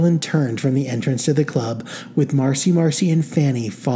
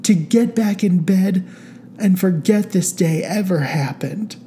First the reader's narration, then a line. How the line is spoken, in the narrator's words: said Carolyn tearfully